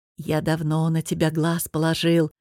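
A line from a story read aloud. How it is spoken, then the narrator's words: Whisper over ghostly voices. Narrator (Russian): шептал Бохарт, заглушая голоса призраков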